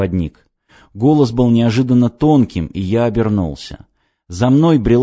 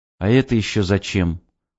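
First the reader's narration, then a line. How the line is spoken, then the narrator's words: Tired question. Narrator (Russian): устало спросил я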